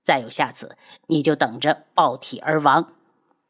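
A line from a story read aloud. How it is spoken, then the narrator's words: Cold. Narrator (Chinese): 男子冷声道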